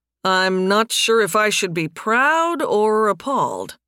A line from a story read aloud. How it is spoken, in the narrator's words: Nathan drawled